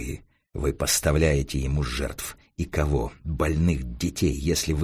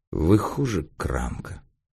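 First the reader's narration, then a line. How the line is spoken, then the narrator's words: Weary resignation. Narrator (Russian): устало сказал Эраст Петрович, сам понимая бессмысленность беседы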